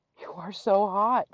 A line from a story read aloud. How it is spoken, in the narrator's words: gasped